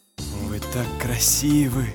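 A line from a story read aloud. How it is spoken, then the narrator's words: Hoarse voice. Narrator (Russian): хрипло произнес черный зонтик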